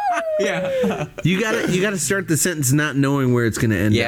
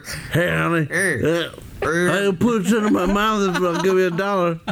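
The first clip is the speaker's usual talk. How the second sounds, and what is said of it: Imitates another person's voice. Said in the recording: “We should do a whole Uncle Eric episode ... do your impression.”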